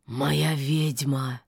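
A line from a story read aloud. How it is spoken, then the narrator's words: Hoarse whisper. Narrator (Russian): хрипло прошептал Кощей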